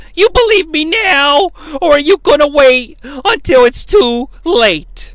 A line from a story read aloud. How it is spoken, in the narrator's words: He yells at Beth